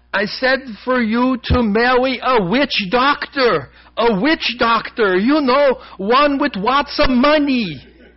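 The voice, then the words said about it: Screamed line in broken European accent. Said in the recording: “screamed in her broken European accent ... I don't know if my accent quite contributed to the way it should”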